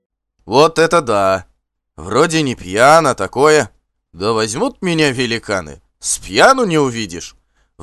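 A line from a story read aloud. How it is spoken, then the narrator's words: Sudden nearby bark. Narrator (Russian): вдруг гаркнул совсем рядом смутно знакомый голос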